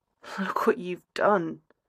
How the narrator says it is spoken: he murmurs again

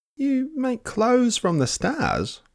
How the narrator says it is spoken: exclaimed Sam

